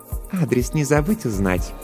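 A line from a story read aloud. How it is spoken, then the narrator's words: Purring. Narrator (Russian): промурлыкала Жанна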